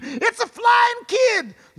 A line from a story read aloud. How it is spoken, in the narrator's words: screamed